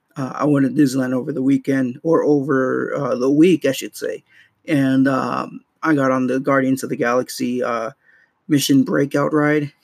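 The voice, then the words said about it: Rough, hoarse recovering voice. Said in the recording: “excuse my voice. My voice is a little rough right now... in the process of recovering my voice... my voice was shot already”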